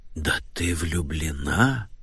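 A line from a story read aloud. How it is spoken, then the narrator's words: Dramatic whisper. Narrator (Russian): произнесла Нэнси Джиллет страшным шепотом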